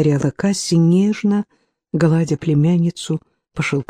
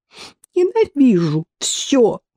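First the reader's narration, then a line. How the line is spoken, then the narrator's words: Sobbing. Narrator (Russian): всхлипывала Хивер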